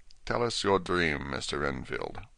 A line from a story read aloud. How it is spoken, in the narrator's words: Van Helsing said in a quiet, grave voice